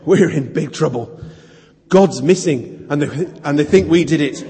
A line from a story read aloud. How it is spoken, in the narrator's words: panting, he said